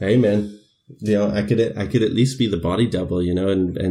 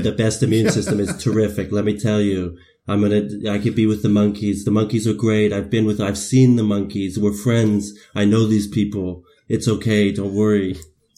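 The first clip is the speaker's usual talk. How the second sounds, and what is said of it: Donald Trump impression. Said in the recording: “working on my Donald Trump. ... You've been working on that impression.”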